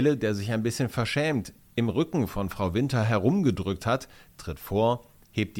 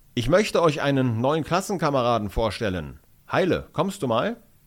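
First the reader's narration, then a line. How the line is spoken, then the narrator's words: Loud announcement. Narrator (German): erklärt mit lauter Stimme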